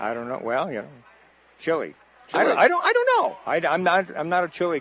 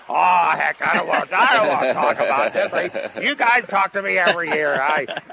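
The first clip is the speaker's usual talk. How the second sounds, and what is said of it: Imitates another person's voice. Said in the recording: “That's a good impersonation”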